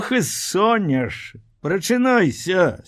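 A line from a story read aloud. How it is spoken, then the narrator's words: Laughing. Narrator (Belarusian): смяялася яна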